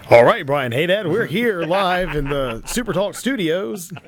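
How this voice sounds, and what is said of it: Radio news announcer voice. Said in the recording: “do the entire interview in the news voice”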